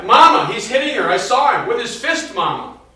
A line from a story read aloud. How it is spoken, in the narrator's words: She screamed to Pilate